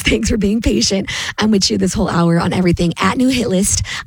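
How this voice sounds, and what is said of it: Hoarse, strained voice. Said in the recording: “I'm still getting through this laryngitis.”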